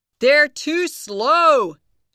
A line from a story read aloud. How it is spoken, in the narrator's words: shouted Max